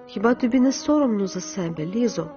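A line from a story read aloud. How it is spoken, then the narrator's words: Sad voice. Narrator (Ukrainian): Паула сказала сумним голосом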